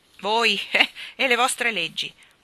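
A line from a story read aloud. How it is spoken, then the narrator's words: Fat woman laughing. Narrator (Italian): disse la donnona grassa grassa, ridendo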